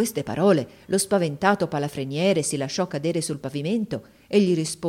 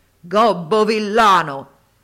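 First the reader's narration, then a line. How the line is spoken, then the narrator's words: Thundering buffalo shout. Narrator (Italian): il genio si cangiò in un possente bufalo e sotto cotesta forma gli gridò con voce tuonante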